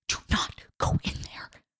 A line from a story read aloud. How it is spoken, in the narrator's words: Dakota whispered